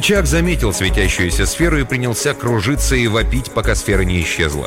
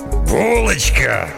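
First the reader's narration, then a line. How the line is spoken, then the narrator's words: Roaring. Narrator (Russian): взревел смельчак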